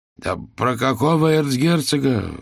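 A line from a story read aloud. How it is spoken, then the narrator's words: Exclaimed. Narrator (Russian): воскликнул Никифоров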